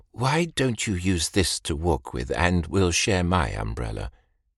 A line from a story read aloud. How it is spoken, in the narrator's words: said kindly